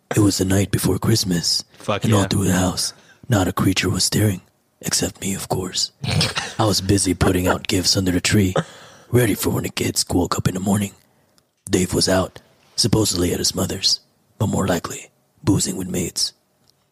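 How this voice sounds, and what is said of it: Gruff fictional character voice. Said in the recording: “read it in Geralt voice ... Let me try a Geralt voice.”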